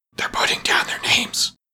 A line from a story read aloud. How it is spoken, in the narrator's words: the griffin whispered in reply